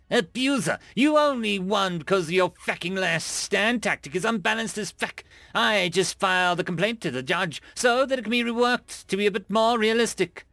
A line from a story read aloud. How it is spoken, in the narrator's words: He snapped